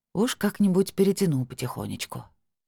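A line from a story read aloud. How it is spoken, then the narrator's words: Sigh. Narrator (Russian): вздохнула я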